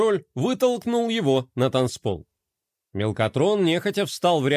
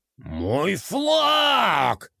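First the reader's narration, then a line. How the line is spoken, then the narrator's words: Yelling. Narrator (Russian): заорал де Кроль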